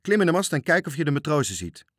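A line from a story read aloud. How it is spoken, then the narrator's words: Calling out. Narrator (Dutch): riep hij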